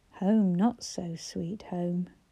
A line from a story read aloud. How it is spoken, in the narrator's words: she muttered under her breath